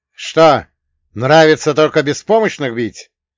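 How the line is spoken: Sharp shout. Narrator (Russian): резко выкрикнул я

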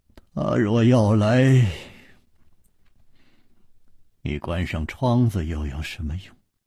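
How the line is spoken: Sighing. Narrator (Chinese): 楚留香又叹道

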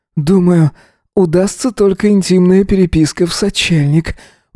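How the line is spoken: Breathy moan. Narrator (Russian): выдохнул он, застонав громче

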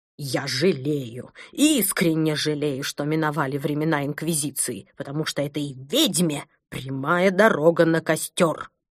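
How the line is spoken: Angry hiss, rising volume. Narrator (Russian): Злобно прошипел доктор Пилюлькин, повышая голос

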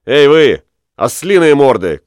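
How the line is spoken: Shouting. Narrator (Russian): крикнул

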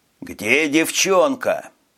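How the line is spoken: Growl. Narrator (Russian): прорычал Виктор

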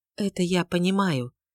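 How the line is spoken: Soft. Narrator (Russian): мягко сказала

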